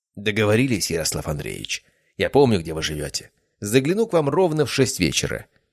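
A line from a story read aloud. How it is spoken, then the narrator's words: Plain. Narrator (Russian): ответил я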